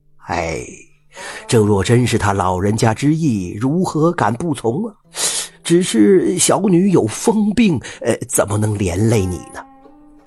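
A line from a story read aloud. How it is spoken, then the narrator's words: Laughing scholar. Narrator (Chinese): 楚秀才笑道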